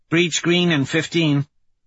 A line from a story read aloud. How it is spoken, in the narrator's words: Holiday says